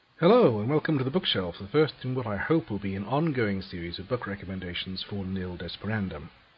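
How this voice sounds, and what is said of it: Bermudian accent. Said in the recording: “I live in Bermuda, hence the accent.”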